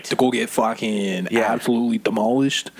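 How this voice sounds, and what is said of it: Good put-on accent. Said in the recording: “That's a very good accent.”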